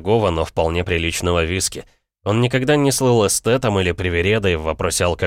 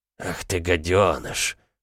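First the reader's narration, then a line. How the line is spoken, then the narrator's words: Muttering. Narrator (Russian): пробормотал Олден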